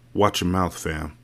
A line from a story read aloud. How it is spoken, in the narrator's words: Carter said through clenched teeth